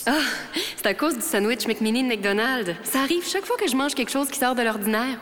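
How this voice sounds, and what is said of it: Grand, pompous-sounding voice. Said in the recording (French): “avec ta voix? Tu sonnes un peu grandiose!”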